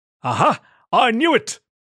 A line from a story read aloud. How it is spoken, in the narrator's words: bellowed, with hate